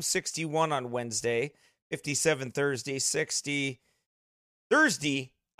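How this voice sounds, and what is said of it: Minnesotan accent. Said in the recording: “I sounded like a Minnesotan”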